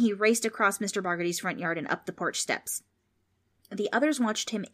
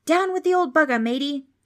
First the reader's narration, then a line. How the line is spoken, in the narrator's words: Darren suddenly shouted